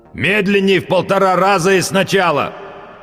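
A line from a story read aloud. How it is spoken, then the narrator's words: Loud growl, wearing headphones. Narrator (Russian): прорычал он, как любой человек, забывший, что он в наушниках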